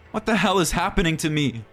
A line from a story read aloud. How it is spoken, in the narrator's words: Ronald asked desperately